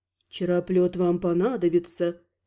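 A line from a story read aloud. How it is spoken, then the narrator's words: Quiet remark. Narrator (Russian): тихонько заметил Шевелан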